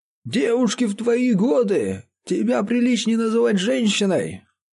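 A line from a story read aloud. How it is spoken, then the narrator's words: Grumbling father. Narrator (Russian): проворчал отец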